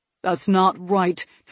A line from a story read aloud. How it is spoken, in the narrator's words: Tristan grumbled